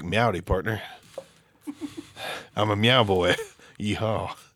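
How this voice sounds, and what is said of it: Creepy seductive bedroom voice. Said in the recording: “In your bedroom voice, it's kind of creepy.”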